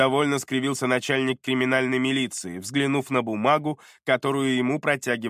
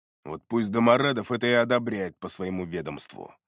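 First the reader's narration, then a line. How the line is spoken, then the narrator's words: Muttered. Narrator (Russian): пробормотал начальник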